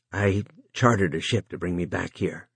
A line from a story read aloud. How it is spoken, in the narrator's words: Joe said huskily